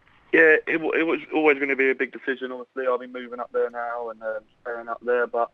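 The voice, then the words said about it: Southern English accent. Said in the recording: “listening to your accent, you obviously are a southern boy”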